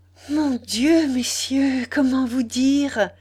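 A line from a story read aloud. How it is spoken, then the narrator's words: Breathless joyful exclamation. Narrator (French): s'écria Marie de sa voix haletante, brisée de bonheur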